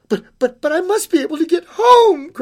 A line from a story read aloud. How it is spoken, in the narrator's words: cried the little girl